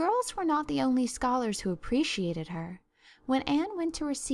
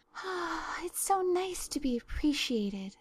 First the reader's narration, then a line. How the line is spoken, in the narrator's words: sighed Anne rapturously to Marilla